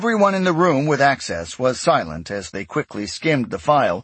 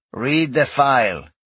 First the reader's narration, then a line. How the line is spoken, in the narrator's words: Rael suggested dryly